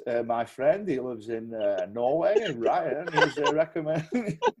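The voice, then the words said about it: Imitates another person's accent. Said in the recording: “He'll be doing that Steve McLaren accent.”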